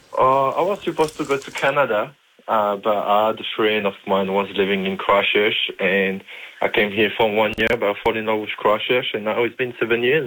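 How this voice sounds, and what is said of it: French accent. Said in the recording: “That accent alone would be fantastic ... I'm the only French-raised agent in Christchurch”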